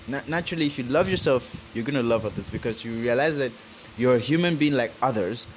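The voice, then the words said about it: Nigerian accent. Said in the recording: “Forgive my accent. I am a Nigerian. ... I just have this natural accent.”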